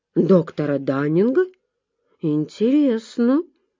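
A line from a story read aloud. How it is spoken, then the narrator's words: Slow, thoughtful. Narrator (Russian): медленно проговорил он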